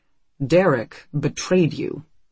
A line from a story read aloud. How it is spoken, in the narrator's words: Rasbach says calmly